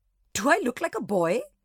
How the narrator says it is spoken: she spluttered

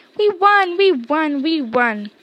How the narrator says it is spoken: shouted Ron

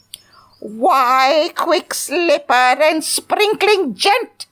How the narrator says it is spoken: she shouted in a shaky voice

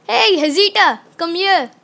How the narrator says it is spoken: Zeus yelled

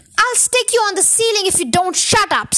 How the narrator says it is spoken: snapped Muggle Wump

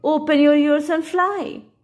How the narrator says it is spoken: he cried

